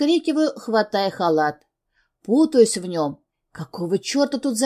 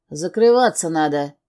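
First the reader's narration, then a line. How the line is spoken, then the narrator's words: Rough growl. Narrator (Russian): грубо рычит на меня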